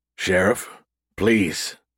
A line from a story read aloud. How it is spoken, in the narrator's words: Hess said